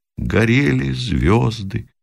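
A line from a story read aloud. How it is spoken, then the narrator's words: Quiet, sad, from distance. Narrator (Russian): Оттуда же из пехотного окопа тихо и печально раздалось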